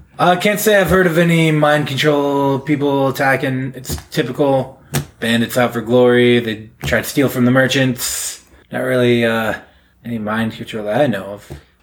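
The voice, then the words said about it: Dim-witted character voice. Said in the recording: “your dumb voice. Every time he's used that voice for a character, it's like, you're a fucking dumbass.”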